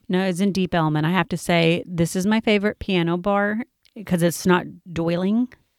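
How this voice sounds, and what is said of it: Speaker's own regional accent. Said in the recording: “You know my accent. I can't say it.”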